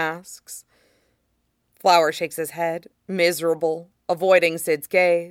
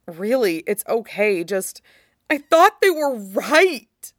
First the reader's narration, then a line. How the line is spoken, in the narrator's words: Flower gasps